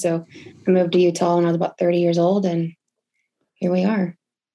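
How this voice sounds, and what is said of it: Texas accent. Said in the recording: “I've heard the accent”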